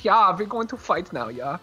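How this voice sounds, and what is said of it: Thick put-on German accent. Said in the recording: “Thick German accent”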